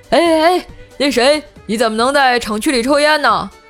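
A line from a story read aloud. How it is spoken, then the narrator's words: Old guard shouting. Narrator (Chinese): 看门的保安大爷对着我喊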